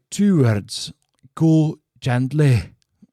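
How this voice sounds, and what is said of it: Put-on Scottish accent. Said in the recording (Dutch): “ik moest even mijn Schotse accent doen”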